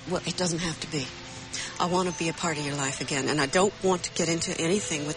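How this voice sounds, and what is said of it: Southern American accent. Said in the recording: “she got a southern ... Accent when she lived in New England?”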